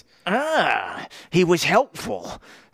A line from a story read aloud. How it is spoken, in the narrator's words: Stark sneered